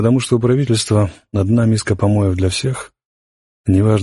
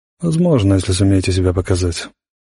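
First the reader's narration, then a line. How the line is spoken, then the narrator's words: Gruff mutter. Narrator (Russian): буркнул сержант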